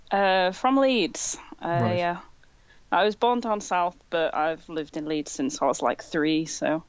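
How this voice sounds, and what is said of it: Northern English accent. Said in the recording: “Where's that accent from? ... I sound northern. ... Yeah, you do.”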